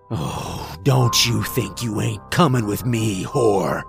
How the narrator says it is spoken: He snarled

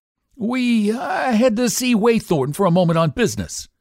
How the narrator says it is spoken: stammered, brick-red from chin to nape

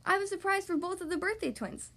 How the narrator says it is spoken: Sophia says

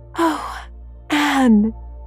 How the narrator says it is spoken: gasped Jane

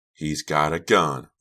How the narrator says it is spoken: Red cried

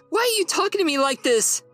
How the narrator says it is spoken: She cried

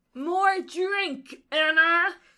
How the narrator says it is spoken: Kate bellows

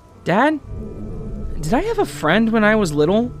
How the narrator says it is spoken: asked hesitantly

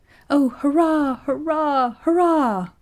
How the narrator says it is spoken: cried Effie

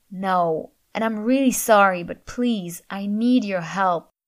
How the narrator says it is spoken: groaned

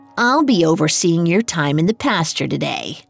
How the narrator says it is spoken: she said, sneering

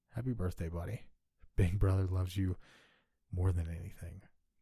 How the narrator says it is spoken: whispered

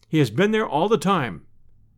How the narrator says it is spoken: said

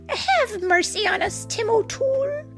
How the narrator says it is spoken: begged the leader of the little people

